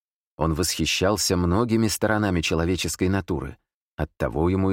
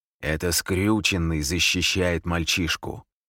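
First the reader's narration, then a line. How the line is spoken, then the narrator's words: Growl. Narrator (Russian): прорычал самый доверенный помощник Лероя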